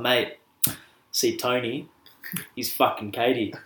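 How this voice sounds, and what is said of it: Put-on urban Australian accent. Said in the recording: “I'm going to do my best urban Oz accent.”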